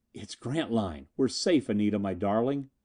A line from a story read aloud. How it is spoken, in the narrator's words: And I whispered